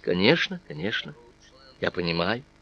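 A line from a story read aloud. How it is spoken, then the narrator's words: Gentle, affectionate. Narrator (Russian): Аннетта ласково говорила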